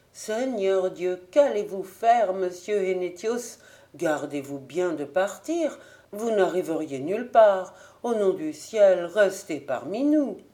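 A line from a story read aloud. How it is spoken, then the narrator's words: Exclaimed. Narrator (French): Jung s'écriait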